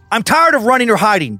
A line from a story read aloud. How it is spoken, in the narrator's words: Duncan said